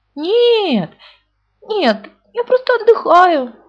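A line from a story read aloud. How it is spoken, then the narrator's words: Forced cheerful voice. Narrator (Russian): ответил Пух, стараясь говорить веселым голосом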